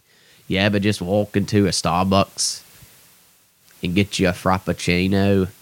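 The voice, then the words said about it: Bad British DJ accent impression. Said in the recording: “it's a awful British accent. ... it's a British DJ that's not funny”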